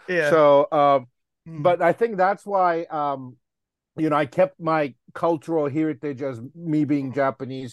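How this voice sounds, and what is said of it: Japanese accent. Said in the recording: “he makes fun of my accent ... I'm fresh out of the boat, you know, like immigrant ... I'm the first generation ... I was there till I was 17”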